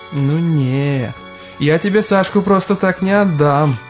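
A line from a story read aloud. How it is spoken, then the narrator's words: Mock-whiny playful drawl. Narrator (Russian): дурачась плаксиво протянул Дмитрий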